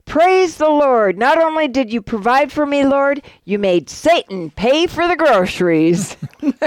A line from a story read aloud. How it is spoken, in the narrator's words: She shouts